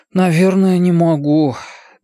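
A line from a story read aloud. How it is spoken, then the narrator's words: Sighing. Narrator (Russian): Бен вздохнул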